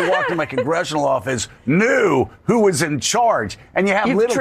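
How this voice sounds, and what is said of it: Usual voice. Nothing is said of it.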